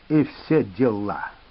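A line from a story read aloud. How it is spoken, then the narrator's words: Contemptuous, through clenched teeth. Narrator (Russian): презрительно процедил он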